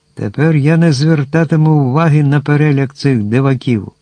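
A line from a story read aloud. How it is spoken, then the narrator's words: Cheerful giant's exclamation. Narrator (Ukrainian): простодушний велетень забув своє горе і весело вигукнув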